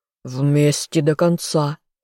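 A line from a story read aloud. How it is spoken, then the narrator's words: Furious growl. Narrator (Russian): яростно рыкнул он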